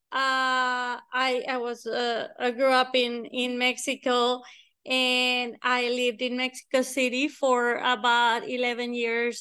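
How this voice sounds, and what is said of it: Slight Spanish accent. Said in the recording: “Spanish is my first language. So you're going to notice a little bit of an accent.”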